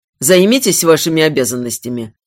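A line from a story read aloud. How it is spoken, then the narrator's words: Cold command. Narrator (Russian): велел холодно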